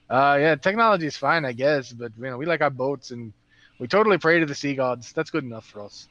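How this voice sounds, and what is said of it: Put-on accent wandering, sometimes Russian-sounding. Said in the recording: “my accent keeps wandering between different things. I sound like a Russian side sometimes”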